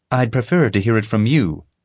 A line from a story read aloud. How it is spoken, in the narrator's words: Molly said